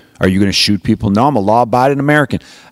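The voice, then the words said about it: Put-on Southern accent. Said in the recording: “I don't know why I do the Southern accent”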